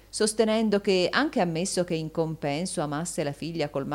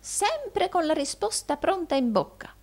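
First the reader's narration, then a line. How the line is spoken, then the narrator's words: Old man exclaiming. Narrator (Italian): esclamò il vecchio Arturo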